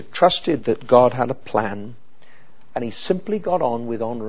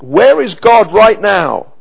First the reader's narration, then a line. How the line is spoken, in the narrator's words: Joseph didn't shout out